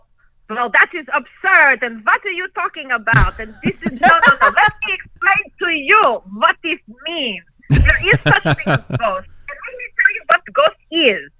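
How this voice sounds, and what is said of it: Dracula-style old-world accent mixed with New York. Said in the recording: “I love the way you do the accent. ... this is the old Count Dracula's. ... this New York, we New York vampire.”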